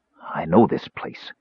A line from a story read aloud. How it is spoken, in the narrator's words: Caramon whispered